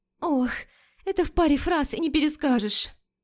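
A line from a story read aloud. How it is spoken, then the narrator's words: Breathy exhale, female friend. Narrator (Russian): Выдохнула подруга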